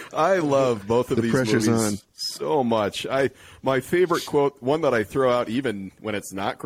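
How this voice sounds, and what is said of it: Usual voice. Nothing is said of it.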